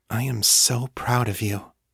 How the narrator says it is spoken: she whispered

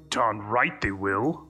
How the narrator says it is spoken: muttered Lupov

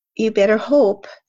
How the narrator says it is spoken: he said

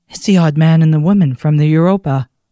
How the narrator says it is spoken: gasped

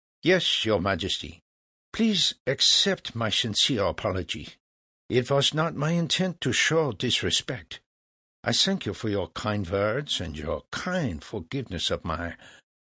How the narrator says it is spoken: Mozart replied calmly

